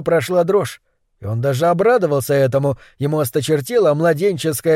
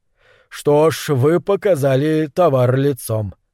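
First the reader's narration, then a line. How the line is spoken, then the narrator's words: Indifferent voice. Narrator (Russian): произнес Норрис безучастным голосом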